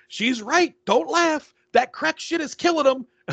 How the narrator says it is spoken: Jeffrey's yelling, he goes

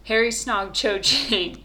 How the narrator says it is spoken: shouted Ginny, who sounded close to tears

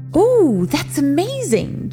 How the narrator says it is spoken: Jin exclaimed

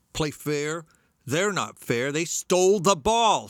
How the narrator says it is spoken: screamed Larry

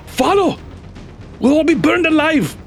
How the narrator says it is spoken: he shouts

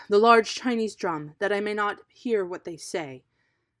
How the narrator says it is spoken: he cried

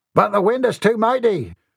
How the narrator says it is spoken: a frightened mate cried over the whip of the wind

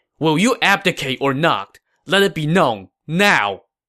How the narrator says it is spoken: Hua Xin said angrily

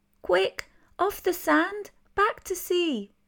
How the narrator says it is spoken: cried the snail

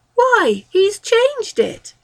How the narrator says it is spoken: exclaimed a chorus

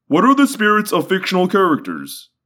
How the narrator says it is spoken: Guide whined in what I took to be a humorous way

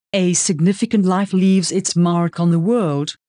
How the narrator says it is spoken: Heidi says finally, looking wistfully

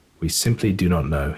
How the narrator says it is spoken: replied

